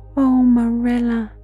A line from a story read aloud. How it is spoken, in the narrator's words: said, sobbing without looking up